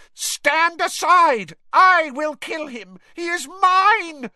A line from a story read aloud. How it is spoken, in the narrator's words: shrieked Voldemort